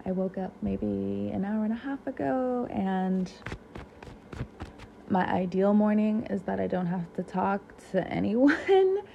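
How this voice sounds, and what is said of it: Slightly raspy voice. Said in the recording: “My voice is a bit raspy.”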